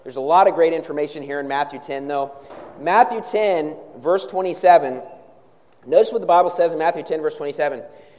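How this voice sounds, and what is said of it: Sick, strained voice. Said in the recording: “I'm a little bit under the weather here today, so forgive me if I'm not as dynamic as normal, if I lose my voice a little bit.”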